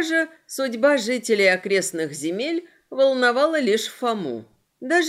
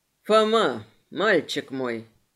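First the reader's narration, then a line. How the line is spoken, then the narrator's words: Spoke affectionately. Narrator (Russian): Морли заговорил ласково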